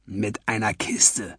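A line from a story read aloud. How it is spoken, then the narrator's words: Whispered reply. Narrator (German): wisperte er zurück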